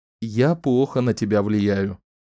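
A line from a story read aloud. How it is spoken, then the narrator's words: Cheerful statement. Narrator (Russian): весело констатировал он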